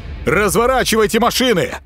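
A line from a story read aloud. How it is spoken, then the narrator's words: Barked. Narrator (Russian): гаркнул он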